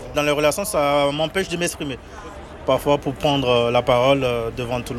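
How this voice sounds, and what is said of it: Beninese French accent, unusual R. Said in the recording (French): “Mon accent, c'est... Des fois, il y a par exemple les R qui ne sont pas bien prononcés ... Du Bénin, je suis béninois.”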